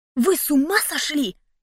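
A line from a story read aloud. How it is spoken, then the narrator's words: Indignant whisper. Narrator (Russian): С негодованием прошептала я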